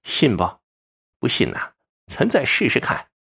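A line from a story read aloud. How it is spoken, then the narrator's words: Cold, sarcastic sneer. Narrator (Chinese): 蓝莓从鼻孔里哼了一声，冷冷一笑，阴阳怪调的说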